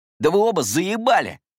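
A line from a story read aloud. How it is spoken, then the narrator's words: Angry bark. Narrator (Russian): рявкнул Кэмерон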